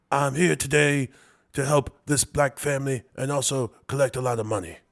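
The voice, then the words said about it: Impression of Al Sharpton. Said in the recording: “do an impression of Al Sharpton ... That's pretty good. ... It's accurate, right?”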